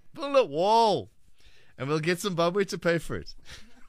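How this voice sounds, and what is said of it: Donald Trump impression. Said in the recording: “Your Donald Trump impersonation.”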